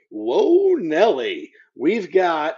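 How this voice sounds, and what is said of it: Weak sportscaster impression. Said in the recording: “my best Keith Jackson impersonation ... that was not great. that was really bad. That was really really bad. ... You got to put some oomph into”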